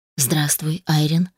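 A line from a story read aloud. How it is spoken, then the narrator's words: Quiet. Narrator (Russian): тихо произнес мужчина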